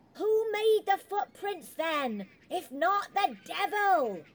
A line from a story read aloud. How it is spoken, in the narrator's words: The shouting started up again